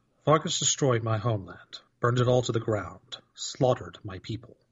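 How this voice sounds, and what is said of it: Deep put-on character voice. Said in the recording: “try my deep voice”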